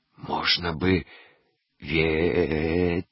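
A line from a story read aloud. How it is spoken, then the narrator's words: Whisper. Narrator (Russian): шепнул Заика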